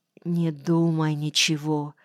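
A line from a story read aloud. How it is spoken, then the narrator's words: Barely audible muffled whisper. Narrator (Russian): еле внятно прошептала она, лицом вжимаясь мне в грудь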